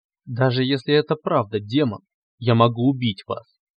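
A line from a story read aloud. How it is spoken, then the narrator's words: Irritated interruption. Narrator (Russian): оборвал, раздраженно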